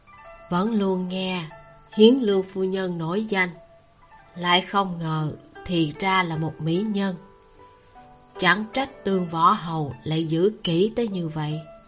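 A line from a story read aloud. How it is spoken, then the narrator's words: Light laughing speech. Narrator (Vietnamese): khẽ cười, nói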